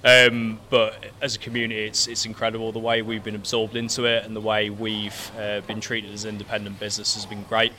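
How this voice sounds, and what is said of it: Non-local regional accent. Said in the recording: “you can probably tell by my accent, I'm not from Stretford originally”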